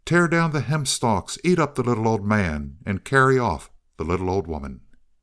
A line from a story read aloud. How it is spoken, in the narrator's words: the Hobyahs came again, skipping along on the tips of their toes, and they called out